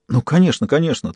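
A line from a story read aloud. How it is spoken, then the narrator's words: Hurried. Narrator (Russian): торопливо подтвердил охранник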